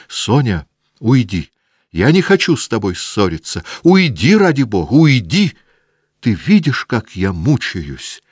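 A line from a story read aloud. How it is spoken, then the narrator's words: Angry, desperate shouting. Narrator (Russian): злобно кричала Наташа, сдержанно раздраженным и отчаянным голосом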